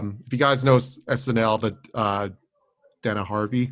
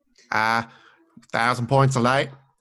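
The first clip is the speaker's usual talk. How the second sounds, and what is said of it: Imitates another person's voice. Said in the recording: “I can't do his voice, but I tried.”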